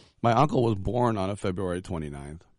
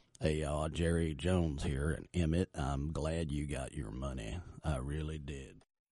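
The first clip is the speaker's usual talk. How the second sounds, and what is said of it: Put-on southern accent. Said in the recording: “Maybe if I just talked in kind of a southern accent, it would sound a little bit better.”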